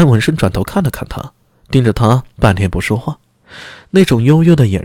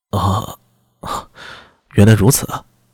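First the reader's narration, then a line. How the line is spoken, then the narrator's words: Stunned, long sigh. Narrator (Chinese): 安文生愣了愣，长叹一声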